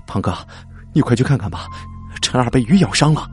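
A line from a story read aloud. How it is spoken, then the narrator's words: Breathless, panting. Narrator (Chinese): 苏杰气喘吁吁的说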